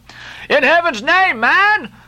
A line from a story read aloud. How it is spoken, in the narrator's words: cried Stubb